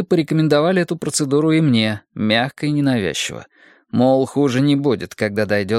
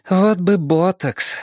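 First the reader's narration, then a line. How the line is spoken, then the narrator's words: Sighed. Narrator (Russian): вздохнула она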